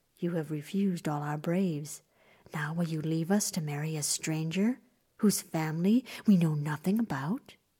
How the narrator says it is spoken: The mother frowned and whispered to her daughter

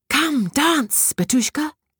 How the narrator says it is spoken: cried the fairy

